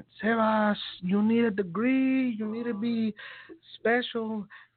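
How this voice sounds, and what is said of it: Imitating his mother's accent. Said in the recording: “this is my mom's accent”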